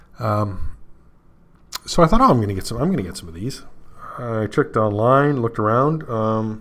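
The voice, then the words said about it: Canadian accent. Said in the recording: “as you can tell from my Canadian accent.”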